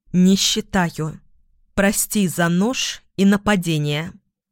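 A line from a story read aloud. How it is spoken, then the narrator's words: Slow, measured, emphatic. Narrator (Russian): Тиона медленно, чеканя каждое слово, произнесла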